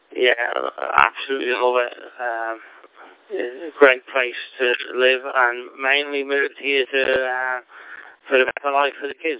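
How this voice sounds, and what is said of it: Mild Scouse-Australian hybrid accent. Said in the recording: “You've still got a little bit of Scouse twang in there, but not too much. A bit of a hybrid accent, I call it. Half Aussie and a little bit of Scouse mixed in”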